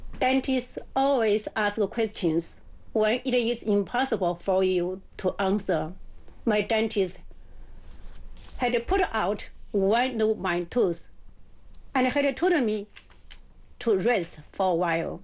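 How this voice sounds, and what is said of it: English with a slight accent. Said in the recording (Chinese): “口音估计带点口音”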